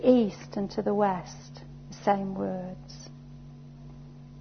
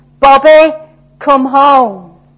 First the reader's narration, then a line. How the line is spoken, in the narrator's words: he shouted into the wind